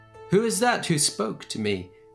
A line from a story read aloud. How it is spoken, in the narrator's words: he called out